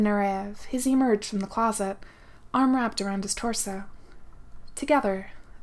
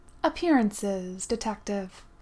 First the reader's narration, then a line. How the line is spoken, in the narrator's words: Nureyev replied smoothly